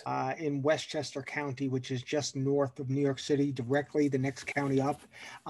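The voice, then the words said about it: Non-British accent. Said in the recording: “I can tell by the accent that you're not from the fair shores of the UK.”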